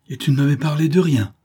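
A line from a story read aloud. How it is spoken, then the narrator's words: Exclaimed. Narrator (French): s'écria-t-elle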